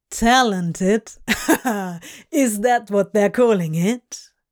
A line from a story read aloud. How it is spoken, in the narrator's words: Crowley laughed